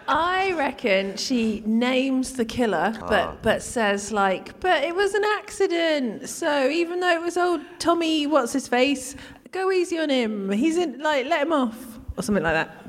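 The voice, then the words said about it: Convincing put-on Shropshire accent. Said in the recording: “That's a brilliant ... Shropshire accent, though.”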